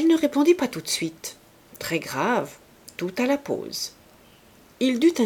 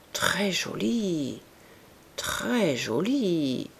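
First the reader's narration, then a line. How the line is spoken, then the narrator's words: Murmuring, at a loss. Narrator (French): murmura Rougon, ne sachant que dire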